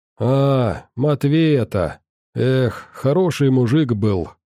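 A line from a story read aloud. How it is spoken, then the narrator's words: Old man's heavy sigh. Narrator (Russian): тяжело вздохнул дед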